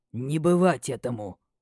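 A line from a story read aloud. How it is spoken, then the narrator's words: Growled. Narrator (Russian): рыкнул лорд Рагар Аш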